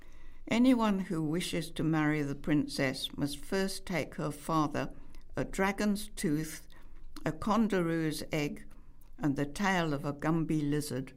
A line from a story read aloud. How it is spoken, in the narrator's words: said the prince